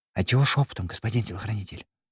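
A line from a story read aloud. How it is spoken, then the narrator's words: Drummer whispering a question. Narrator (Russian): Спросил также шепотом барабанщик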